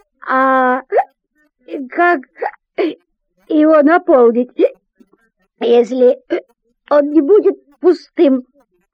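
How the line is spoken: Stammering reply. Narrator (Russian): заикаясь, отвечает Артур

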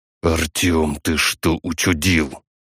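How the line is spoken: Angry whisper. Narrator (Russian): Зло шепнул мне пиратский барон

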